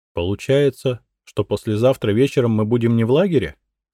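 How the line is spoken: Plain question. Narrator (Russian): спросила Коровина

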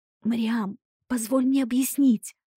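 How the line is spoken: Hoarse breathless. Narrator (Russian): снова прохрипела я, с трудом переводя дыхание

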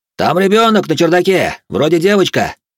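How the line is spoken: Shouted from the street. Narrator (Russian): прокричал кто-то на улице

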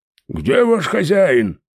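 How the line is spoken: Shouting. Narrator (Russian): орал

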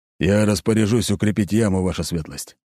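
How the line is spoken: Gloomy answer. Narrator (Russian): мрачно ответил Аршавин

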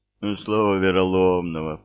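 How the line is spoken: Groaning. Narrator (Russian): простонал Рыбьино

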